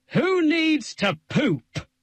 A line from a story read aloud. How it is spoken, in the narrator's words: Brushes bellowed